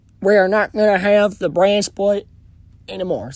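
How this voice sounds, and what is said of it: Imitates another person's voice. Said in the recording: “my bad Vince McMahon impression”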